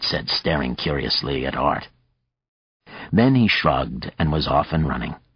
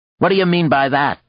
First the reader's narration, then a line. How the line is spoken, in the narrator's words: one of them called out